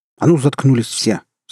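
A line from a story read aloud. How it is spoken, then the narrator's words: Angry shout. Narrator (Russian): сердито прикрикнул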